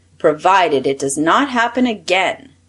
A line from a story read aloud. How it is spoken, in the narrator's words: said the Prince of the Knooks sternly